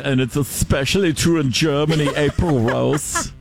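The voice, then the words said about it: Put-on German accent. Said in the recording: “I love your German accent”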